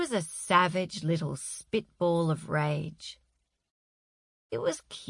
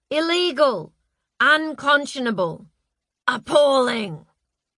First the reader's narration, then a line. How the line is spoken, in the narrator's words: Her mum was shouting